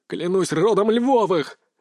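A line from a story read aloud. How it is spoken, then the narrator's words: Loud shout. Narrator (Russian): закричал Сергей так, чтобы слышали все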